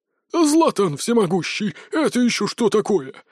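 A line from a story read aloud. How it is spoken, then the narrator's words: Exclaiming chubby man. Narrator (Russian): воскликнул пухляш в темно-синем мундире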